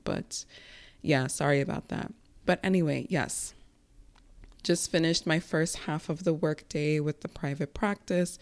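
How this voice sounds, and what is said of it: Strained voice, losing her voice. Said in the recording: “my voice sounds a little off ... Almost feel like I'm losing my voice”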